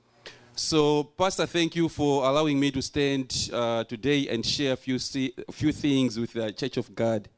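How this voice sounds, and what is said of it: Non-native English accent, L/R mixing. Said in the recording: “You may struggle with my accent. ... just note the letters like W's, L's, and R's. ... So where L has to be there, maybe I use R.”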